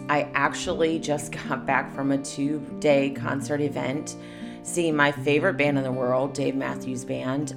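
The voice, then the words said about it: Hoarse voice. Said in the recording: “I sound a little hoarse.”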